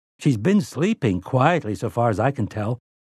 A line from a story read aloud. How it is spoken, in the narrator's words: Eddie said